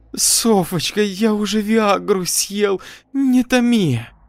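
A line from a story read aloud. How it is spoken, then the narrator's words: Moaning. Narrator (Russian): стонал Фима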